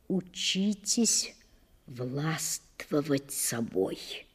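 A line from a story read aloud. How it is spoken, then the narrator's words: Quiet, almost pleading. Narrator (Russian): Тихо посоветовал он, или, вернее сказать, попросил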